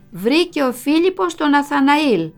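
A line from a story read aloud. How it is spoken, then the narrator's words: Mother, smiling. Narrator (Greek): Η μαμά χαμογελούσε και μου έλεγε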